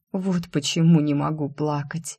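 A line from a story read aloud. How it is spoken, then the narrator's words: Whisper, heavy sigh. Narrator (Russian): прошептала я и тяжело вздохнула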